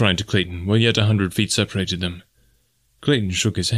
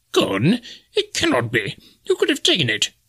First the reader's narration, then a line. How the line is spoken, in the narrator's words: cried Professor Porter